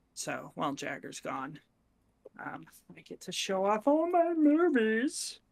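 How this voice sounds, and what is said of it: Put-on funny voice. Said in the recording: “I don't know why I just did that voice”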